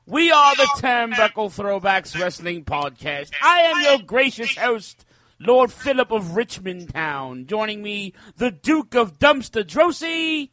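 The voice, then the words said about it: Fake British accent, pretty good. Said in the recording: “what is this fake British accent? ... You like my British accent? ... Actually, it was pretty good. I was kind of surprised.”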